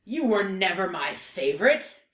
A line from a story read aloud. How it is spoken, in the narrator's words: Yakov roars